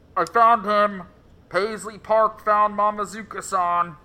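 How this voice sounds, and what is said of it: Robotic voice. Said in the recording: “gave it a robot voice.”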